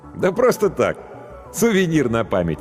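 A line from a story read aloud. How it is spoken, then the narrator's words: Laughing. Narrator (Russian): рассмеялся профессор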